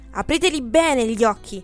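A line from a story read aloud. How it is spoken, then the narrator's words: Shouted. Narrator (Italian): gli gridò compar Alfio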